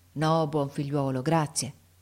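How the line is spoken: Plain. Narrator (Italian): rispose il muratore

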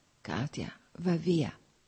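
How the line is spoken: Whispered again. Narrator (Italian): sussurrò ancora

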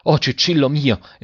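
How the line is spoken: Father exclaimed. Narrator (Italian): esclamò il padre

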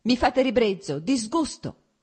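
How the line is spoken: Shouting, growing more heated. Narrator (Italian): gridò lei riscaldandosi ancora di più

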